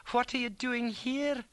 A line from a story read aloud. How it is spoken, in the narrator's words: she squealed